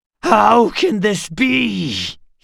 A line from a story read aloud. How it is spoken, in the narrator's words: He wails